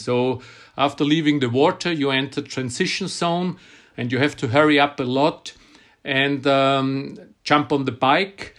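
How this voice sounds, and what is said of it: Non-native English accent. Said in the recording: “I'm worried about my accent, but you say it's charming.”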